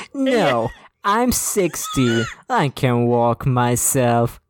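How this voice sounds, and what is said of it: Deliberately bad character voice. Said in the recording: “do a shittier voice”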